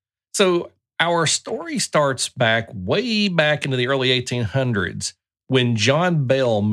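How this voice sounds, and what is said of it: Usual voice. Nothing is said of it.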